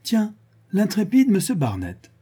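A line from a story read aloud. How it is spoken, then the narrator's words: Exclaimed from above. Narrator (French): s'écria Olga du haut d'une échelle de corde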